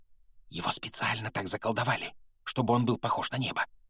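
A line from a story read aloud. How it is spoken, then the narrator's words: Whisper. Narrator (Russian): прошептала опять оказавшаяся рядом Гермиона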